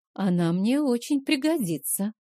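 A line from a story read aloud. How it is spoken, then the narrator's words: Sighed. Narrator (Russian): вздохнула та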